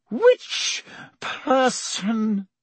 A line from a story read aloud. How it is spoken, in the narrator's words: she said, her voice shaking